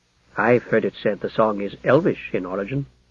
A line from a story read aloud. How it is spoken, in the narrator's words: murmured Alfred